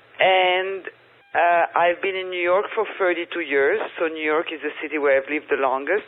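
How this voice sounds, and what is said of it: French accent. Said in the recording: “as you can all hear from my French accent”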